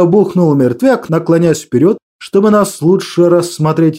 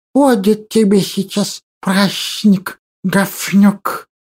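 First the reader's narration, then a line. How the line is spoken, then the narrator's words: Quiet hiss. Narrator (Russian): Тихо прошипел Лихорук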